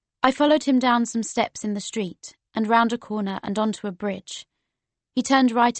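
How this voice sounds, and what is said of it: Usual voice. Nothing is said of it.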